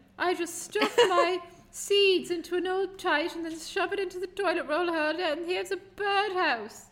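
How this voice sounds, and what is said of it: Put-on English accent. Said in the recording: “I think your English accent is flawless. Problematic. ... Flawless.”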